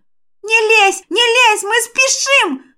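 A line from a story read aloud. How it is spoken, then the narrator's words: Spirit's wailing shout. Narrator (Russian): завопил дух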